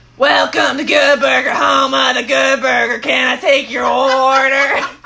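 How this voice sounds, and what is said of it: Good Burger character impression. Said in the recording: “impersonations ... I'm usually pretty good. ... she's pretty spot on.”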